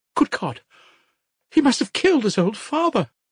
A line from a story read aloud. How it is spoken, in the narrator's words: she cried